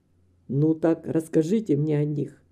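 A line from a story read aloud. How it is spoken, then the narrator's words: Quiet request. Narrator (Russian): тихо попросил он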